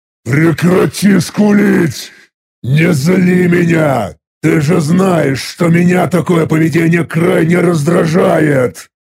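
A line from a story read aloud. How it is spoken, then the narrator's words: Angry growl. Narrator (Russian): рыкнул зло я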